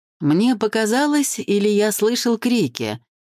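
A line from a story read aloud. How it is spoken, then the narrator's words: Ordinary voice. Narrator (Russian): сказала Жора вполне обыкновенным голосом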